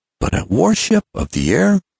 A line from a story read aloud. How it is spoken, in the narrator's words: cried Ned